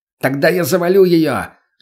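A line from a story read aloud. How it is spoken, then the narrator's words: Throat-straining shout. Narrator (Russian): закричал гематоген, надрывая горло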